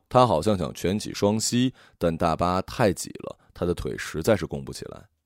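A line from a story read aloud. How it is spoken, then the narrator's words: Low voice. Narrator (Chinese): 魏安雪低声说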